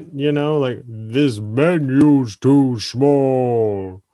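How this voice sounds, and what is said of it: Deep Jolly Green Giant impression. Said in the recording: “a horrible giant impression ... that's exactly what the Green Giant would sound like ... The Green Giant sounds exactly like Lou Ferrigno's Hulk.”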